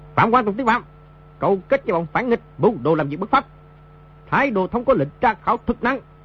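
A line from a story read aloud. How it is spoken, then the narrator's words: Guards barking. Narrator (Vietnamese): Bọn thị vệ quát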